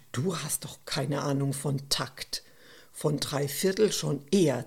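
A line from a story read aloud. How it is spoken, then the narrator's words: Hissed. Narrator (German): zischte Stefan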